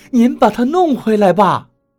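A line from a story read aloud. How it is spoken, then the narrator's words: Shouted question. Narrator (Chinese): 董玲喊着问赵一二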